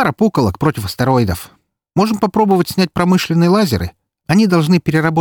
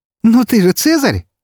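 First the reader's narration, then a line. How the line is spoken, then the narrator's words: Laughing. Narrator (Russian): рассмеялась она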